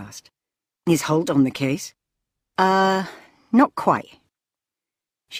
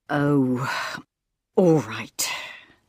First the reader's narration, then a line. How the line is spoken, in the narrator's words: sighed Ambrose